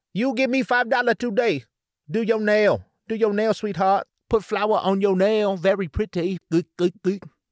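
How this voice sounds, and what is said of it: Put-on stereotyped Asian accent. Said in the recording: “Asian accents either. Like, it's very hard to pull off a cool Asian accent. Funny for sure ... like the lady at the nail salon”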